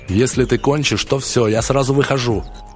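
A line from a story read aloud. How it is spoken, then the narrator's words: Yelling. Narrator (Russian): орал он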